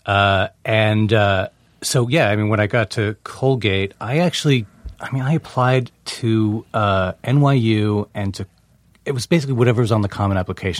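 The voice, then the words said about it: Slight New Jersey accent. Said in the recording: “now I'm hearing a Jersey accent ... a little bit”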